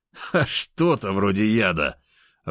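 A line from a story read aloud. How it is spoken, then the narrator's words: Laughing out loud. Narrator (Russian): в голос рассмеялся я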